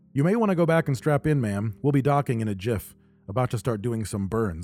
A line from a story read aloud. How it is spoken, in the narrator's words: Ensign Shin said in a perfect standard accent